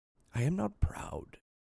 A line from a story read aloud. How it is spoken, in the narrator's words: he whispered through his fingers